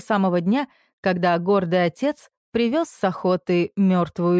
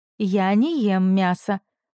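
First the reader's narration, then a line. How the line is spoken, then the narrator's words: Calm reminder. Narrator (Russian): спокойно напомнила Соня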